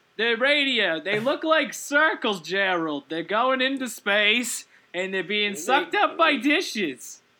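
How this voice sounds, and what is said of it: Put-on Jewish grandmother accent. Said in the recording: “Jewish grandmother accent ... it's perfect.”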